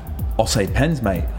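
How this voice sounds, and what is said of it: Slightly Australian-sounding put-on accent. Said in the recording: “That sounded Australian. ... Yeah, that was a bit Australian. We'll work on the accent.”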